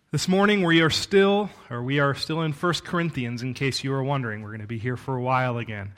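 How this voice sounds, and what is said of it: Voice starting to give out. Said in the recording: “I feel like I'm starting to lose my voice a little bit”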